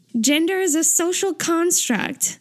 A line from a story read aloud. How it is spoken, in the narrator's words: Taeyong shouts